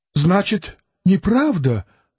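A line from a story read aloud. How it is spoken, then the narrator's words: Exclamation. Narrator (Russian): воскликнула Клавдия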